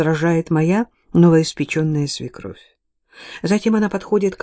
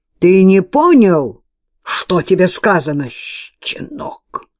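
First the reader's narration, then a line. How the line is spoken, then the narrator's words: Menacing bark. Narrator (Russian): грозно рявкает его отец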